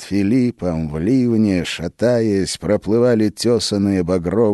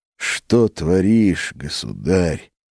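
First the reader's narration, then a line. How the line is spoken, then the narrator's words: Groaning. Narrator (Russian): простонал Филипп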